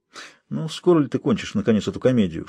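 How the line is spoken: Whispered. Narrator (Russian): шепнул тайный советник

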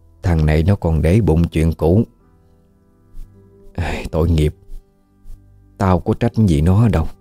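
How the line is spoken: Soft murmuring. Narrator (Vietnamese): Bà thủ thỉ nói

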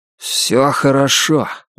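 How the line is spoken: Muffled, hollow voice. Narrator (Russian): глухо сказал Лестер

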